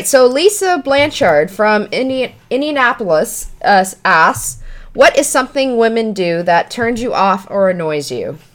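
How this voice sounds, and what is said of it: Stuttering, tripping over words. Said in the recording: “You're stuttering like a motherfucker, tripping over your words”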